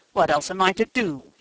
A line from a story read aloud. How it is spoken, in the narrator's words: he cried hotly in Bohemian